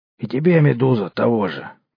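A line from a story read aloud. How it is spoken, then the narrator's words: Hoarse merchant. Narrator (Russian): прохрипел торговец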